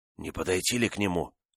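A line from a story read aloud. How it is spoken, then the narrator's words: Whispered. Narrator (Russian): шепотом проговорил Декатина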